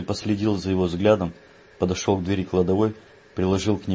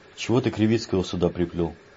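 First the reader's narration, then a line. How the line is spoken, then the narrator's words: Sighed. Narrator (Russian): Леший вздохнул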